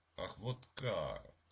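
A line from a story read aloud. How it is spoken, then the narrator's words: Exclaimed. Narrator (Russian): воскликнул Питер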